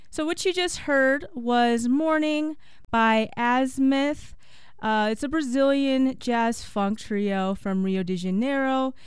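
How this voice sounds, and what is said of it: Strained, dry-throated voice. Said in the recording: “sorry for my voice ... so my throat is acting crazy”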